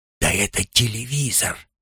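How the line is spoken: Whispered. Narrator (Russian): шепнул ему Левуа

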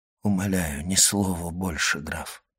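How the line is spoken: Dejected voice. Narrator (Russian): сказал Моррель упавшим голосом

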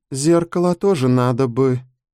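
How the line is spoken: Hesitant small girl. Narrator (Russian): неуверенно проговорила пигалица

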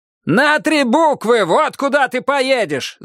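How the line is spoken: Shouting. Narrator (Russian): закричал он

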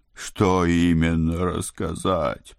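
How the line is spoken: Groaning. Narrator (Russian): простонал со стульев Моро

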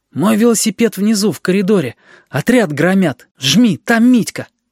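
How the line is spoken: Hoarse voice from cold. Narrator (Russian): Сиплым от простуды голосом сказал

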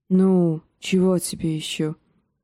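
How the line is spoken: Grumbling. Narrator (Russian): проворчал Джендри

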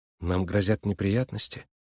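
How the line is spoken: Quiet question. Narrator (Russian): тихо спросила Нойс

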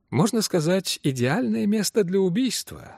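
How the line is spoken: Pleasant voice. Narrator (Russian): сказал мистер Саттерсвейт приятным голосом

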